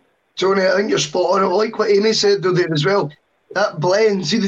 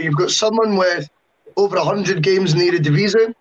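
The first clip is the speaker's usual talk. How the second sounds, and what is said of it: Put-on Dutch accent. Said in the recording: “Do you like my Dutch accent there?”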